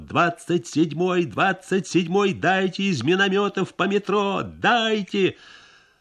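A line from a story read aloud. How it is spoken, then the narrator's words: Telephone operator shouting. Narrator (Russian): Телефонист наш кричал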